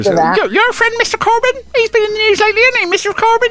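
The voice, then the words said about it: Imitates another person's voice. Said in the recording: “impersonation of our butcher in Dursley ... It was like he's in the room with you”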